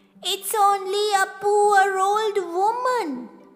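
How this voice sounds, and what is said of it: Squeaky old woman voice. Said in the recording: “came a squeaky voice”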